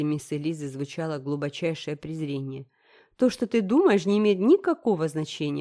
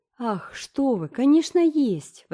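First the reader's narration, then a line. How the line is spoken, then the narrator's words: Indignant exclamation. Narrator (Russian): воскликнула Энн, которая не могла молча слушать подобную ересь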